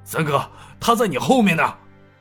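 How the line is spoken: Big man shouting. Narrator (Chinese): 另一个大汉叫道

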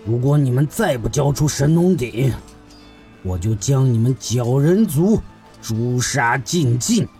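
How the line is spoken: Stern, threatening. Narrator (Chinese): 智罗厉声要挟道

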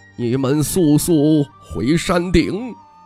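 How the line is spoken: Old man, deep grave voice. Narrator (Chinese): 老道士沉声道

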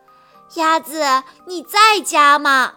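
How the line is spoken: Wolf's shout. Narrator (Chinese): 灰狼大喊

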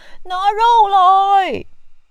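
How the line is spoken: Group shouting. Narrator (Chinese): 我们全都大叫

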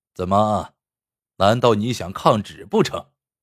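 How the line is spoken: Cold question. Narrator (Chinese): 赵东陵冷冷的问

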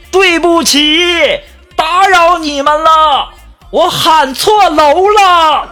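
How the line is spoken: Shouting upstairs. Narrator (Chinese): 这男孩冲楼上大喊

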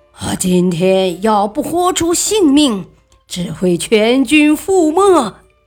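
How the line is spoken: Fierce roar. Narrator (Chinese): 厉声吼叫

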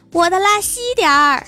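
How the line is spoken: Raised voice, shouting. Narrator (Chinese): 提高嗓门对老板喊

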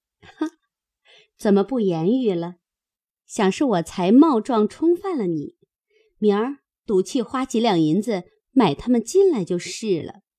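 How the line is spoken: Laughing. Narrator (Chinese): 袭人笑道

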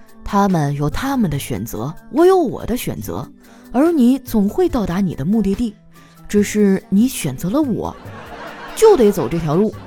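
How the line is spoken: Calm, flat. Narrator (Chinese): 司机淡淡的说

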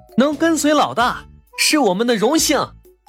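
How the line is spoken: Excited group shout. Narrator (Chinese): 所有人都兴奋地喊道

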